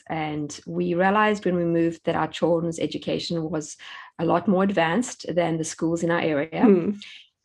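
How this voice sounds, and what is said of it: South African accent. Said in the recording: “you can hear from my accent, I am not an American ... I grew up in South Africa”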